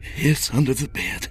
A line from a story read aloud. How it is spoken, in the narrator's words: he breathed